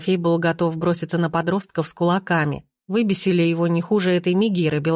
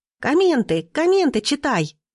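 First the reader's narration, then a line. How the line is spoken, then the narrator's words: Girlfriend squealing. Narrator (Russian): запищала его подруга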